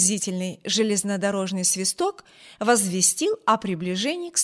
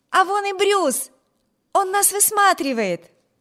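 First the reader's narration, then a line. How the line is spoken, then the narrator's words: Excited exclamation. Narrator (Russian): воскликнула Эми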